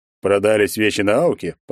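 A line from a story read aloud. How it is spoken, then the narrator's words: Knowing snort. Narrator (Russian): понятливо хмыкнул Егор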